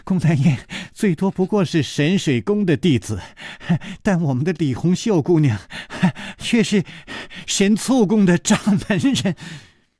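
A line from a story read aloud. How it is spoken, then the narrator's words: Breathless laughing. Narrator (Chinese): 宋田儿喘着气笑着说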